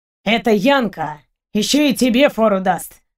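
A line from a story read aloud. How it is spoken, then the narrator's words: Sudden amused grunt. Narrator (Russian): внезапно хмыкнул Семенович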